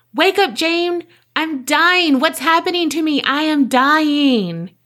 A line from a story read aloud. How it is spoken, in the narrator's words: Esther woke her sister Jane up by screaming, crying out